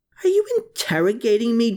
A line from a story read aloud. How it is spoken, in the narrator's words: Jew Riedel screeched, with his rancor overwhelming him to an even greater extent than his fear had